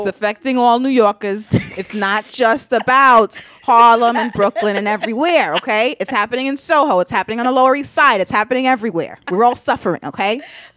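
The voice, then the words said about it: Put-on New York accent. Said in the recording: “accent. ... whoever you voice you're just doing.”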